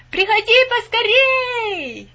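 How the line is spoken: Brothers shouting. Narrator (Russian): его три брата кричали ему

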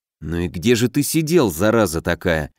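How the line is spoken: Muttering. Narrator (Russian): пробормотал я

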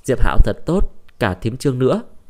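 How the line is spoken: Smiling old woman. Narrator (Vietnamese): Bà Nhạc mỉm cười

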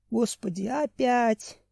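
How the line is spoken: Inner groan. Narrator (Russian): мысленно простонал Семен

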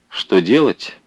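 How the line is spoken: Thoughtful question. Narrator (Russian): Задумчиво спросил Родимцев

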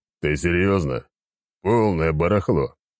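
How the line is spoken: Scornful snort. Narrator (Russian): фыркнул Валера

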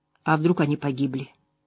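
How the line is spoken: Quiet male voice. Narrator (Russian): тихо произнес он

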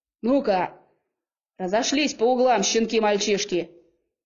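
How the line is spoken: Barked from other side. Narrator (Russian): рявкнули по ту сторону

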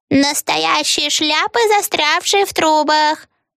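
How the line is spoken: Old witch shouting. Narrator (Russian): закричала старая ведьма

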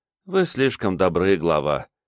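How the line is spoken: Quiet, sighing. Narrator (Russian): Релата вздохнула, тихо бросила

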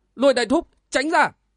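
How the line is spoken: Urgent loud shout. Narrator (Vietnamese): Triển Bạch vội quát lớn

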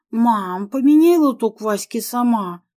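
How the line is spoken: Grumbling. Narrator (Russian): пробурчала

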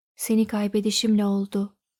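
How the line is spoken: Low voice. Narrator (Turkish): dedi alçak sesle

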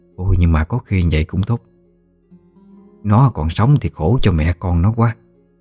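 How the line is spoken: Sighing speech. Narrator (Vietnamese): Có người thở dài nói

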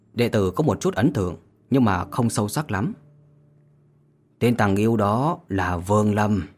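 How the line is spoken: Pensive, low voice. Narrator (Vietnamese): Liễu Mi lộ vẻ trầm tư, hạ giọng nói

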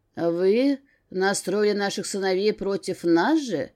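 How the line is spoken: Father's near-growling accusation. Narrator (Russian): Чуть ли не с рычанием в голосе обвинил Верховного отец Кейра

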